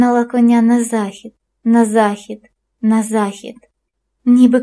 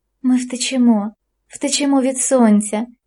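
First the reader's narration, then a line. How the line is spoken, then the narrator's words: Woman's whisper. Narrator (Ukrainian): шепотіла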